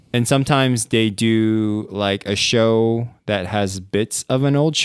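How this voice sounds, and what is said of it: Usual voice. Nothing is said of it.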